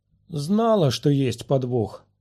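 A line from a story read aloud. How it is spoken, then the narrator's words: Grumble. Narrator (Russian): проворчала Сири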